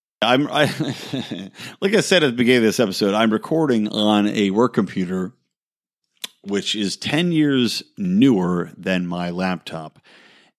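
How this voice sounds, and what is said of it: Tired, exhausted-sounding voice. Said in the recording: “hear the exhaustion in my voice?”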